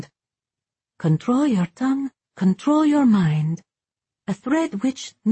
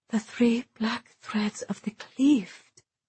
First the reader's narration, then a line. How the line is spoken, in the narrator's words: Isolde whispered